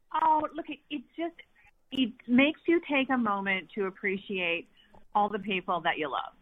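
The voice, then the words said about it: Canadian accent. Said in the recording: “She is in Canada, as you can tell by the accent.”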